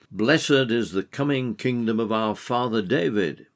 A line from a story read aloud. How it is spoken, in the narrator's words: they also called out